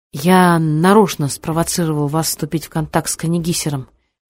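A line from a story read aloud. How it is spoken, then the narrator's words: Plain. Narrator (Russian): говорит Сабуров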